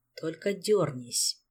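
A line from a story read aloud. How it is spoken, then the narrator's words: Quiet. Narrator (Russian): тихо сказал он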